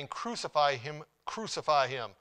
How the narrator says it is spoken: they cried, saying

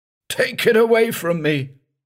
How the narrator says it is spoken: Lake was shouting

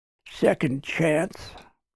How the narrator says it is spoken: the man grumbled

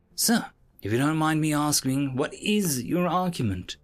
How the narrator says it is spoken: my assistant asked nervously

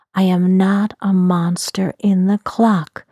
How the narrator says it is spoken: shouted out loud

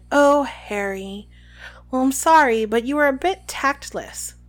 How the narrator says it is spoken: sighed

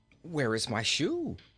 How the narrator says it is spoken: asked the prince anxiously

